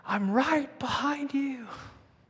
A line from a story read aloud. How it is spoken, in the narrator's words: he hears me yell back at him